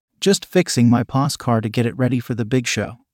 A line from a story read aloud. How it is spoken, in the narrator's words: I said